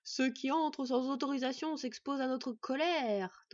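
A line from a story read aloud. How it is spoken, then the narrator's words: Deep cavernous thundering voice. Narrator (French): tonna une troisième voix, beaucoup plus grave et caverneuse que les deux premières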